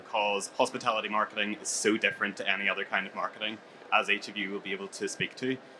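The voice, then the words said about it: Belfast accent. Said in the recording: “It could be the accent as well... That good Belfast accent.”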